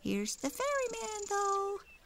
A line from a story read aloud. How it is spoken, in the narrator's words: cried a tiny voice